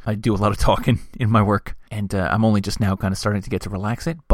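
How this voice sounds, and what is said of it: Hoarse, low late-night radio voice. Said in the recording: “late-night radio voicing this one ... I'm still getting over that cold, so my voice is still a little bit hoarse.”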